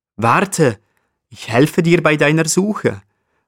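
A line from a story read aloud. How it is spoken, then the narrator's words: Ibex calling out. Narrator (German): ruft der Steinbock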